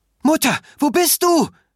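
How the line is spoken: Shouting through the house. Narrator (German): schrie Ruth durch das Haus

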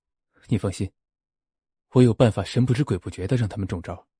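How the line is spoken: Deliberately lowered voice. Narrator (Chinese): 齐军故意压低了声音

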